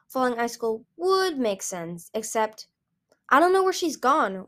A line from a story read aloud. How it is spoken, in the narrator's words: Winter said bitterly